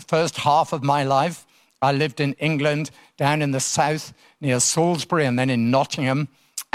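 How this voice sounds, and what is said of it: English accent. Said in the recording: “as you can tell by my accent, originally from England”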